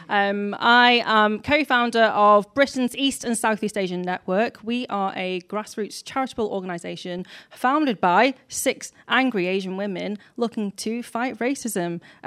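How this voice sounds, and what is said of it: Manchester-area English accent. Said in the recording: “I come from Manchester, in case you can't tell by my accent, actually Warrington”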